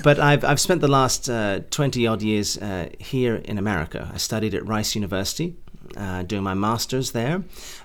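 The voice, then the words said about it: English-leaning accent, not American. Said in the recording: “hence the more English than American accent ... So I've lost that accent too”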